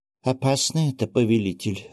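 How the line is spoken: Timid, very quiet old man. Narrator (Russian): робко и очень тихо проговорил сморщенный старичок с длинной седой бородой

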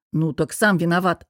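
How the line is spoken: Snapping retort. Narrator (Russian): огрызнулся

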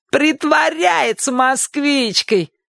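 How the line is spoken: Shout. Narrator (Russian): крикнул Шурик

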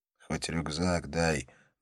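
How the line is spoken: Insistent whisper. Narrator (Russian): настойчиво шепнул он

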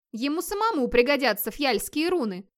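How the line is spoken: Spiteful insinuating tone. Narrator (Russian): намекнул Скьёльд, злобно глядя на Вигмара

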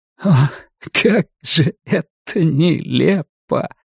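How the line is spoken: Half laughing, half crying. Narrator (Russian): Ларри наполовину смеялся, наполовину плакал

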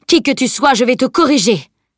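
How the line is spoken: Savage roar. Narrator (French): Il poussa un rugissement sauvage

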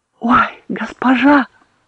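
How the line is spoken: Breathed out. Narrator (Russian): выдохнула Керт

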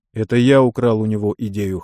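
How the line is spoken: Chuckling. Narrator (Russian): хохотнул Михаил

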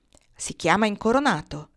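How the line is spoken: Plain. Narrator (Italian): rispose Car

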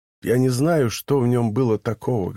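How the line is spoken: Plain. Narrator (Russian): говорит он

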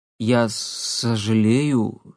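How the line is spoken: Embarrassed, forced out. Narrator (Russian): смущенно выдавил Никита

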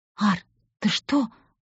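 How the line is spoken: Girl's whisper. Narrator (Russian): прошептала девушка

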